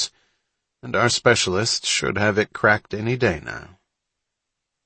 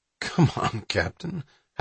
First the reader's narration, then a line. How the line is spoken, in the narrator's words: Hatch said with a laugh